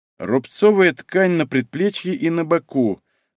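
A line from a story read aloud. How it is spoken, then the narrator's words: Thoughtful drawl. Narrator (Russian): задумчиво протянул судмедэксперт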